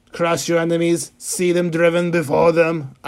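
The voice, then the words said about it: Arnold Schwarzenegger impression. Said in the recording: “I do a really good Arnold impression, if I would say so myself”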